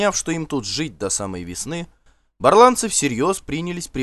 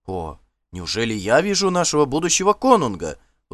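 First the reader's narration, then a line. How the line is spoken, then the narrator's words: Exclamation. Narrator (Russian): воскликнул он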